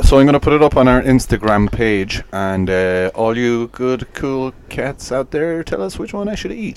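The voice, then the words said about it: Put-on radio presenter accent. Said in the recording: “That was my accent for the radio.”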